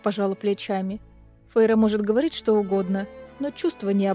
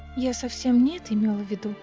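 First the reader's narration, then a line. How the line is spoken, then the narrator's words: Sighing. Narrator (Russian): вздохнула Фейра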